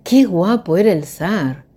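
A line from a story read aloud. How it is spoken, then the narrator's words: Exclamation. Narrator (Spanish): exclamó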